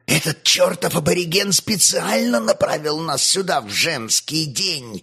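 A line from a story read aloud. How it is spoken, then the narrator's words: Hissed from behind. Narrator (Russian): зашипел сзади Евстафий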